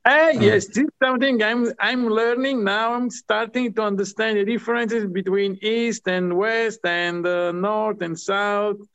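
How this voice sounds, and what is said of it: Strong Italian accent. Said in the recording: “I have this strong accent from Italy.”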